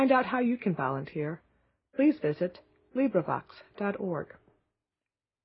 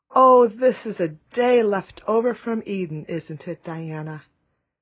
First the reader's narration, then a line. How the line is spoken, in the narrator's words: Anne sighed for sheer happiness